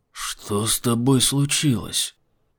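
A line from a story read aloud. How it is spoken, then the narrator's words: Whisper. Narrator (Russian): прошептал Айзек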